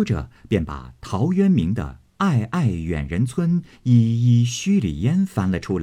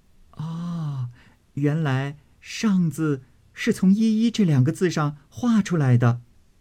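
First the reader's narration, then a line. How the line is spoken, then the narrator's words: Admiring, laughing. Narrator (Chinese): 香菱点头叹赏，笑道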